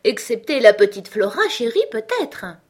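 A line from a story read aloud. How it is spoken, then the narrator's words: Laughing. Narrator (French): dis-je en riant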